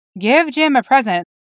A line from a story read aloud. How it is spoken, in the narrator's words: Spock said